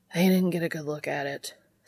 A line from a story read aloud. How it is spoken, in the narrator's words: Sam says, sighing